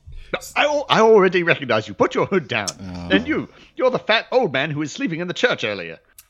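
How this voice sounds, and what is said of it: A different put-on accent. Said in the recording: “Did you get a new accent by any chance? ... you sound totally different ... it's called a disguise”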